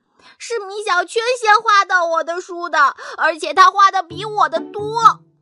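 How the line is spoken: Crying louder. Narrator (Chinese): 徐豆豆哭得更大声了

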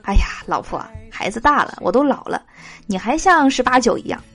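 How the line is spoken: Sighing, wistful. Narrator (Chinese): 我不禁感叹说

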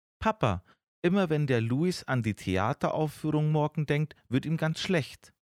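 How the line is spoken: Excited. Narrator (German): erzählt Fini ihrem Papa ganz aufgeregt

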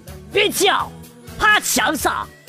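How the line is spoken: Thug's threatening shout. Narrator (Chinese): 大汉冲我吼

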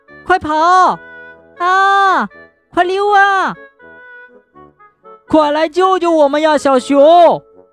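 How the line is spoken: Frightened loud shouting. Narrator (Chinese): 他们害怕的大声喊叫

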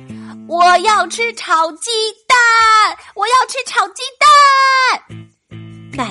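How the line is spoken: Louder shouting. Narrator (Chinese): 闹闹叫得更响了

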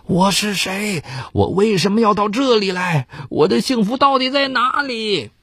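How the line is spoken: Drunken, hoarse yelling. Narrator (Chinese): 喝多了酒的他大声嘶喊

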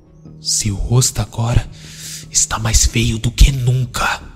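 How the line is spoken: Whisper. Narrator (Portuguese): Isaac sussurrou

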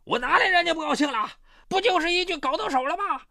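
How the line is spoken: Angry roar. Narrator (Chinese): 唐有才怒吼道

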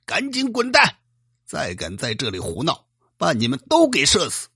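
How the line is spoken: Angry roar. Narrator (Chinese): 赵帅 怒吼道

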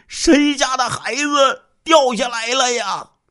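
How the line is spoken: Repeated calling. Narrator (Chinese): 连喊了十几声

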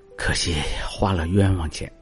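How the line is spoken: Sighing. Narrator (Chinese): 黄君璧 叹息

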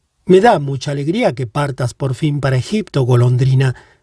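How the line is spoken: Plain. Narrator (Spanish): dijo el príncipe

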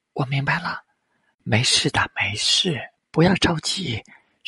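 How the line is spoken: Soft, dejected. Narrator (Chinese): 上天夏娜的心慢慢沉下去，轻声回答

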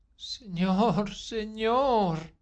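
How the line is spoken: Girl moaning. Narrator (Spanish): gimió la muchacha

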